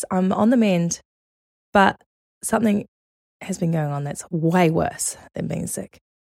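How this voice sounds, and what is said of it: Hoarse, sick-sounding voice. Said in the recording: “I have been sick. Guys, you can hear it. I have had laryngitis.”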